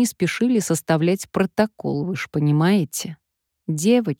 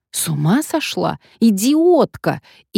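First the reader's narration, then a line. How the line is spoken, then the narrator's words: Shouted. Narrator (Russian): Марта закричала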